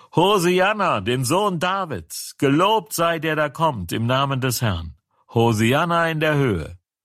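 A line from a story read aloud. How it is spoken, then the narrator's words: Crowd shouting. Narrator (German): Das Volk aber, das vorausging und folgte, schrie und sprach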